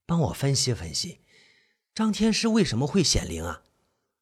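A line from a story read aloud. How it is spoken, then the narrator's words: Low voice. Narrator (Chinese): 唐垂花 低声说着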